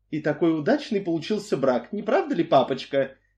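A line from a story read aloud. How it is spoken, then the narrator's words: Sweet singsong. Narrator (Russian): нежным голоском пропела Марсель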